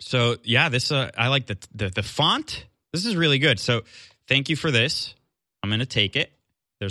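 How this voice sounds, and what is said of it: Usual voice. Nothing is said of it.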